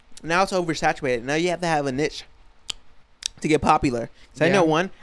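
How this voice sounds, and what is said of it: Usual voice. Nothing is said of it.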